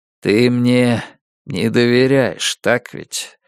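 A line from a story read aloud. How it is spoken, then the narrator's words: Sad question. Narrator (Russian): спросил он печально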